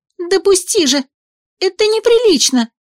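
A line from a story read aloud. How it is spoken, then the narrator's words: Desperate squeak. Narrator (Russian): Пискнула я в отчаянии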